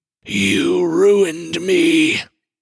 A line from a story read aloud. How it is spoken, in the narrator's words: The Leviathan, who was once a nobleman, howls with wind and wave and menace